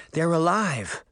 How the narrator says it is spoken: Daphne sighed with relief

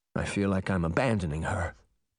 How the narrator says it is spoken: Jake whispered, as if he were afraid Briar Rose might hear

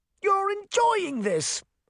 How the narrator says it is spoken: Hart shouted

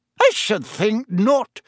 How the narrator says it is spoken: said Professor McGonagall sharply

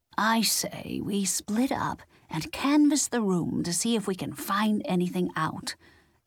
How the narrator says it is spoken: Nans whispered

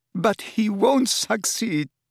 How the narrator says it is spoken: sobbed Narcissa

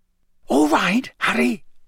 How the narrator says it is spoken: Bagman whispered

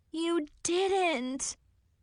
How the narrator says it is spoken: moaned

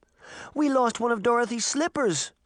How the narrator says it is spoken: Daphne cried

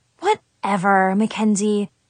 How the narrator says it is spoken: I sighed

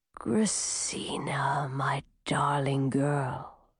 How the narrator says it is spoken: said a whispery voice

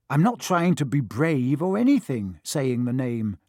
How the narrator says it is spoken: said Harry

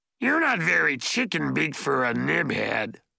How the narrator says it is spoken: the goblin grumbled

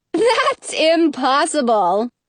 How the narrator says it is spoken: the queen laughs

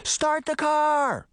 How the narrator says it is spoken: Sabrina shouted as they sprinted

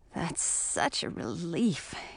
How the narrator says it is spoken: murmured into my hair

